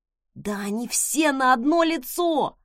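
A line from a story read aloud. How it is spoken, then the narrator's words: Pained hiss. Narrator (Russian): прошипел он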